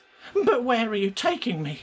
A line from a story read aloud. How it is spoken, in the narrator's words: Gret whimpered